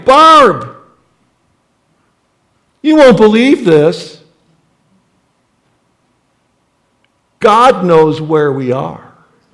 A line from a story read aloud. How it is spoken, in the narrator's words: I shouted to my wife